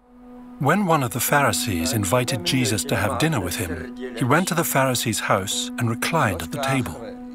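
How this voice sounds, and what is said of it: British accent. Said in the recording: “narrated by a guy who has a British accent”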